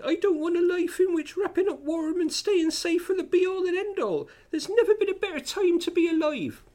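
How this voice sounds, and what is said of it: Impression of Julie Burchill's voice. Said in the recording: “I'm going to do the Burchill accent ... She talks like Pam Ayres ... I'm going to stop doing the voice now.”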